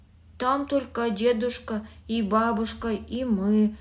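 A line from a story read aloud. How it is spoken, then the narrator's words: Plain. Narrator (Russian): сказал Володя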